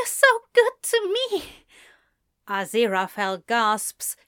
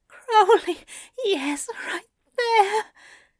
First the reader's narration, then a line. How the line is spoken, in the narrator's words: he moans